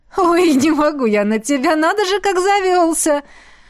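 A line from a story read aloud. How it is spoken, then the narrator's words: Moaning with laughter. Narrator (Russian): Простонала квазара, покатываясь со смеху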